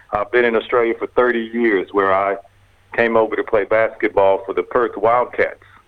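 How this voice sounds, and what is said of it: American Texan accent. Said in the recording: “The accent comes from Dallas, Texas.”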